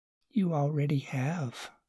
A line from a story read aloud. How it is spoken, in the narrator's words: Susan whispered close